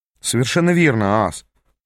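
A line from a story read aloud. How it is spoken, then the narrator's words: Grumbled. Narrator (Russian): пробурчал я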